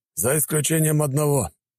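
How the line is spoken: Muffled booming through mask. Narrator (Russian): прогудел из-под своей маски Ибрагим

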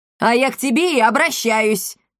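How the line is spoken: Bark. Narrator (Russian): рявкнула комендантша

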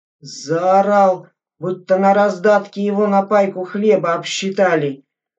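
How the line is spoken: Sergeant grumbling. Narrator (Russian): Мура проворчал сержант Мятников

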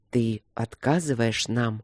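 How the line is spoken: Calm, patient. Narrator (Russian): спокойно и терпеливо уточнил Терии

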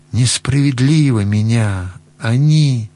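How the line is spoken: Muffled voice. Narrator (Russian): так глухо он сказал

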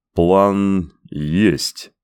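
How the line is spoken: Slow speech. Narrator (Russian): медленно проговорил Коэн

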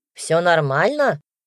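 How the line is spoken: Mild grumble. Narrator (Russian): Игорь Дмитриевич не сильно ворчал

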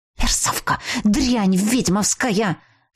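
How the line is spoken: Hissing, furious woman. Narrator (Russian): шипела некромантка

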